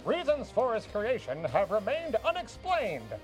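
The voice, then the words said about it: Put-on mid-Atlantic accent. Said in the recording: “like a mid-Atlantic accent for this”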